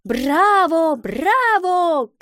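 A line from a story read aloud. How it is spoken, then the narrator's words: Crowd shouting. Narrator (Russian): кричали зрители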